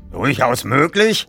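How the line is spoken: Blustering. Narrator (German): polterte Barnes

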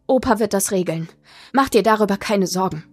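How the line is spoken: Grandmother, trembling voice. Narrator (German): sagte Oma mit zitternder Stimme

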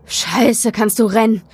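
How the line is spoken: Gasping. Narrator (German): japste er

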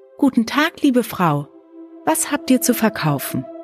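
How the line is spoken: Calling out. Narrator (German): Schneewittchen rief

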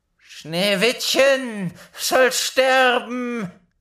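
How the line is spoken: Called out. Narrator (German): rief sie

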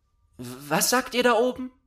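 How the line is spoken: Called out. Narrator (German): rief Gerda

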